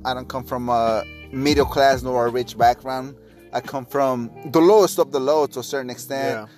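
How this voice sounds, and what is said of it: Spanish-accented English. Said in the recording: “I grew up in Mexico. I'm Hispanic. I'm sure you guys can hear my accent ... Spanish is my first language”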